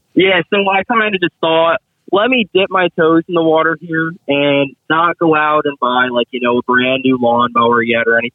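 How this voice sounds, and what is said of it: New Jersey accent. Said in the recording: “that New Jersey accent.”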